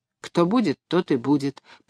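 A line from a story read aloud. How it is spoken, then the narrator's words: Distracted mutter. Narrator (Russian): пробормотала я рассеянно, потому что мое внимание было приковано к тому, что происходило внизу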